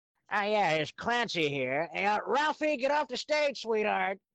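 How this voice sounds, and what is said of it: Impression of cartoon Chief Wiggum voice. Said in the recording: “Can you do Chief Wiggum?”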